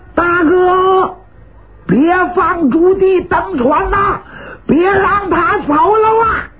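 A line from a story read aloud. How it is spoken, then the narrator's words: Loud shout. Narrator (Chinese): 有人高声喊喝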